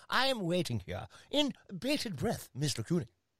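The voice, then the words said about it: Put-on English accent. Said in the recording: “let me say that in an English accent.”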